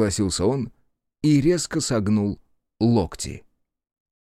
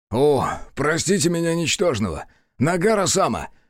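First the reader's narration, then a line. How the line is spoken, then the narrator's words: Exclamation. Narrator (Russian): воскликнул Аяшики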